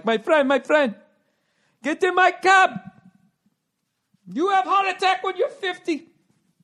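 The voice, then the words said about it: Put-on Indian accent. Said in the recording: “hacky ... I guess Indian accent”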